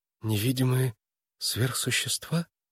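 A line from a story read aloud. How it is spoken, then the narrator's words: Whisper. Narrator (Russian): прошептала она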